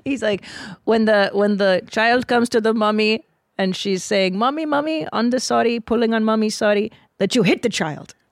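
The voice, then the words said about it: Put-on Indian accent. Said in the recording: “this Indian guy... I'll do his accent”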